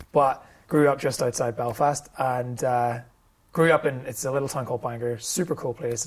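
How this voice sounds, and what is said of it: Northern Irish accent. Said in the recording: “this is a Northern Irish accent, which you may not have picked up because it's not that common an accent”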